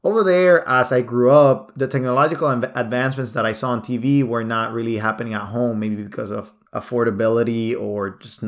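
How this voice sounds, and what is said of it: Nicaraguan accent in English. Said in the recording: “Maybe you've been able to listen to my accent a little bit. I was born in Nicaragua.”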